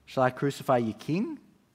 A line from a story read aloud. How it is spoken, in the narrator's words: Pilate asked